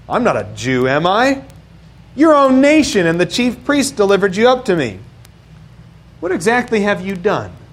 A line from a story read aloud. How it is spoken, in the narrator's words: Pilate scoffs, of course, and he says